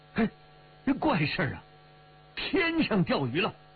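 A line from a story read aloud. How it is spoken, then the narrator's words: Muttered exclamation. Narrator (Chinese): 暗叫一声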